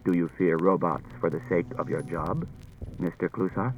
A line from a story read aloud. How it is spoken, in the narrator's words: said quietly